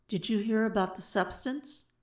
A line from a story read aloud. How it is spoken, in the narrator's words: murmured Ose to Sai